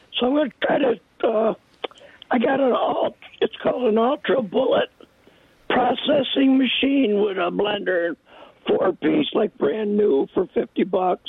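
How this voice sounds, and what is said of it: Hoarse, mostly lost voice. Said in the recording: “I'm going to try to get this out. I lost my voice somewhere ... This damn weather”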